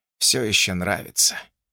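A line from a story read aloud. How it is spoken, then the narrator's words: Quiet. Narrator (Russian): тихо сказал отец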